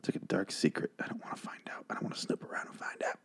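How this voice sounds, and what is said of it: Whispering, strained voice. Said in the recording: “Why am I whispering? I'm losing my voice”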